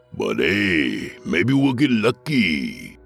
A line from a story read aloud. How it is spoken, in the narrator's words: he said in the cheeriest Cholo accent I had ever heard